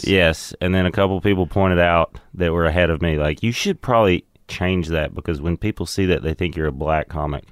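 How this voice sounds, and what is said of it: Speaks with a noticeable accent. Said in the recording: “with my accent”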